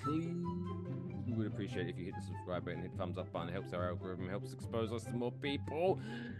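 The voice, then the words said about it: British accent. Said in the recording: “this guy sounds so sexy because of that British accent.”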